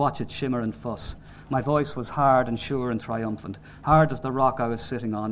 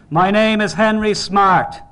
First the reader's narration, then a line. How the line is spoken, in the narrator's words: I'd yell